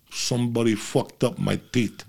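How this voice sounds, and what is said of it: Vito Corleone impression, muffled mouth. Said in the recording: “this is my impersonation of Vito Corleone ... put the cotton balls in his mouth ... That was an impersonation.”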